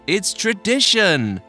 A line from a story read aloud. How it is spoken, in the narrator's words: shouted a young woman from down the table